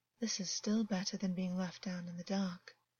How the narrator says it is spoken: August purred, though there was a lifelessness in his tone

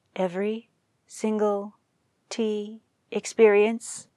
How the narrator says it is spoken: asked, quietly

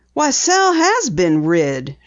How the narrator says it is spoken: exclaimed, as if genuinely surprised

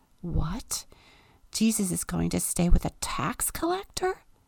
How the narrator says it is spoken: Everyone is grumbling

